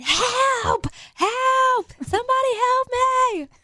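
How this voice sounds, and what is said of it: Screaming for help. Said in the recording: “she's screaming ... It probably sounded a little bit better than that.”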